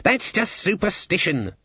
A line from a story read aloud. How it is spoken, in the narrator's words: snapped Cleet